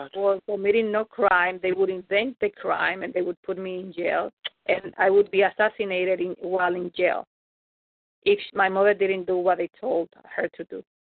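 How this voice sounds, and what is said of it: Speaks with a noticeable foreign accent. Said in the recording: “you have a beautiful accent.”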